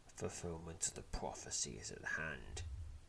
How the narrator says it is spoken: whispers, grinning

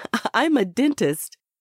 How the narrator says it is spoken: Beatrice said, stifling a laugh

